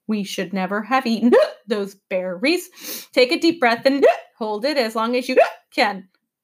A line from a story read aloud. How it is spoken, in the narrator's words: He gasped